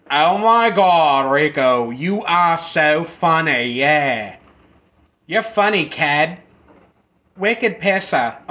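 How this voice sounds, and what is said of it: Mock Boston accent. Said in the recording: “if it was from Boston, it'd be more like”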